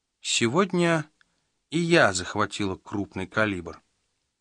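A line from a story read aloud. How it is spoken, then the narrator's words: Calm. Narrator (Russian): спокойно сообщила она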